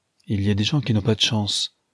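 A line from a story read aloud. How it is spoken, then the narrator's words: Curt dry tone. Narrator (French): dit sèchement la princesse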